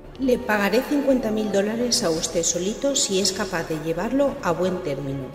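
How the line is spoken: Plain. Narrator (Spanish): le dijo

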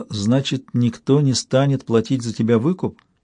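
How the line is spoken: Bitter laugh. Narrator (Russian): Он снова рассмеялся, еще горше прежнего

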